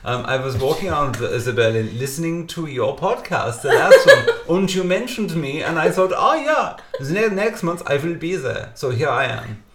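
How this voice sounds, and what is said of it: Put-on comedic foreign accent. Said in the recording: “I may continue to do the accent all night. It's like I'm on LOLO.”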